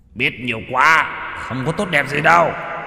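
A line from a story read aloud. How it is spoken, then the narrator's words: Hissed. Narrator (Vietnamese): Hắn rít lên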